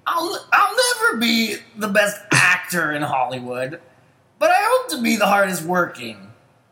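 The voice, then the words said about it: Ashton Kutcher impression. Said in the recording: “let me try to do it in my best Kutcher voice”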